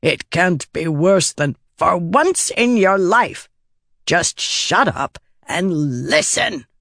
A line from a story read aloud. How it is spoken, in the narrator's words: grumbled, then subsided in a fit of coughing